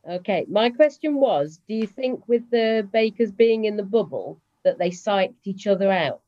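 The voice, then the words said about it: British accent. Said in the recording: “you're in the UK from your accent there”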